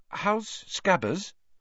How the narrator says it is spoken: Hermione asked timidly

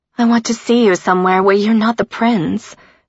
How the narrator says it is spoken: she whined lovingly

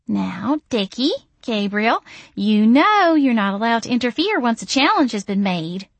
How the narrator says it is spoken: she cooed

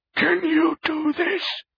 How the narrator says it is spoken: she wheezed

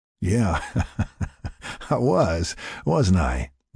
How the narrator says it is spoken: Jack laughed

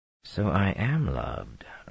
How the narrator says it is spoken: Rand said softly

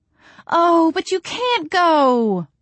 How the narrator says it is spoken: Mama cried

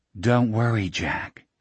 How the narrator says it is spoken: a voice whispered

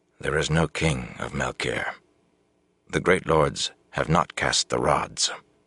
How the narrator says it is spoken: he said quietly, but in a tight voice

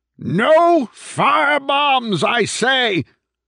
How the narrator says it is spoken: Madigan bellowed at the top of his lungs

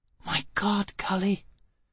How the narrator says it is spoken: Gisbella whispered incredulously

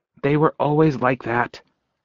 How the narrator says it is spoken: Jessie mumbled under her breath

